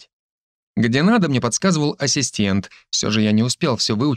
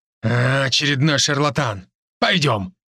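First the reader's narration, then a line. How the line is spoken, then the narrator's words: Growled. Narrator (Russian): мужчина рыкнул на жену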